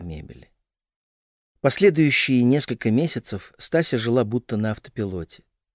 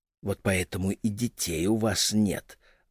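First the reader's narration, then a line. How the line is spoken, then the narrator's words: Small whispering voice. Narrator (Russian): нашептывал голосок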